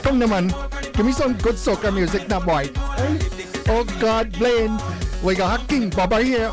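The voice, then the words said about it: Put-on Bajan accent. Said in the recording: “I wonder if I could put on a best Bajan accent.”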